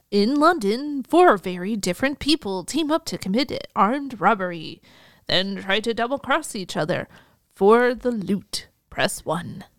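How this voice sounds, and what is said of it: Movie phone announcer voice. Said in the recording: “Let me get my Mrs. Movie voice going. ... you do a movie phone voice? ... Not a good one. ... It almost sounded like you were doing the Trey Parker voice”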